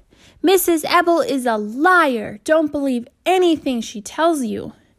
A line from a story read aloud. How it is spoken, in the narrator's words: Bradley hollered